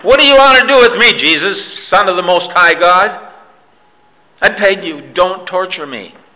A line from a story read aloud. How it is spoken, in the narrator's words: he cried out, shouting at the top of his voice